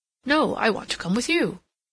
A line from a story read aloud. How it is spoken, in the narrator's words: Rodney evidently hesitated as to the course he should pursue, but seeing Catherine at the door, he exclaimed